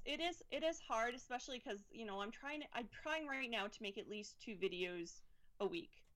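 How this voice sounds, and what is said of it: Canadian English accent. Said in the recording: “based on your accent, I'm going to say you're from Canada ... I don't hear my own accent, but yes, I'm from Canada.”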